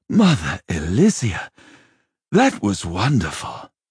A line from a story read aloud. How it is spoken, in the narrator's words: he sighed, feeling for the first time in a long while that the world was not an entirely hostile place